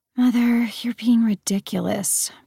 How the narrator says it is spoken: Persephone sighed

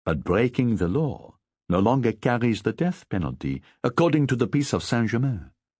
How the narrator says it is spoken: She responded calmly

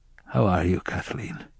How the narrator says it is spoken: I asked in a barely audible voice

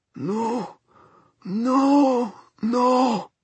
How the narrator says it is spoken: moaned Mr

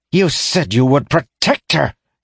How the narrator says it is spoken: he snarled

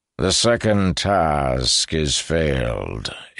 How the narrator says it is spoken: intoned Gash

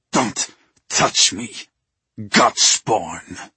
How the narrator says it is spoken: he snarled

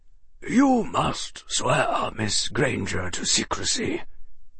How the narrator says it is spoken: Dumbledore said gravely

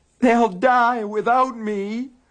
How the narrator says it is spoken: the gaunt thing moaned

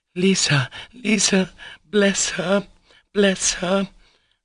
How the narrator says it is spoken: she cried

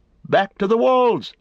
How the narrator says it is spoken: they cried

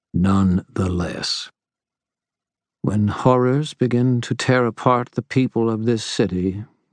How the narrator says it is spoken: Mab said calmly

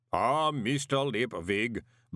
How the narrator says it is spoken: boomed the voice of Mr

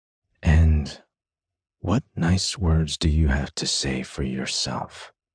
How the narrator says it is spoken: Theo says lazily to him

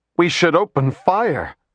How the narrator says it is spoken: Administrator Goris cried

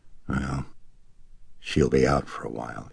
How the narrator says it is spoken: he murmured

